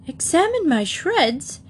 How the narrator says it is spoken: he exclaimed hotly

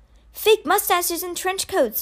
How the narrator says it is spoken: Rennie exclaimed

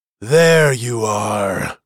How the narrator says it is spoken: growled Loenval ... angry eyes flashing

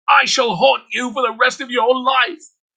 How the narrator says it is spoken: she shouted from the gallows

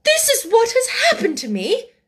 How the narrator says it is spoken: she cried

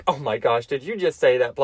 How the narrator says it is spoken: one coworker laughed he was like

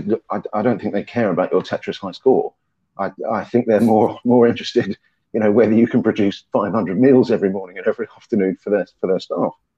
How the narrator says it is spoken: sort of chuckled and said

